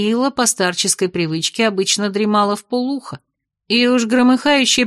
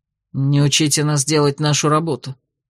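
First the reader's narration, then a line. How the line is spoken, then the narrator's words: Grumbled. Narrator (Russian): буркнул мастер Вентре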